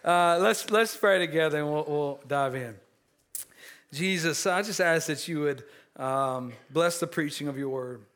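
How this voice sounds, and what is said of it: Hoarse, strained voice. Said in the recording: “I'm kind of losing my voice, probably because I was hooping and hollering at my TV last night.”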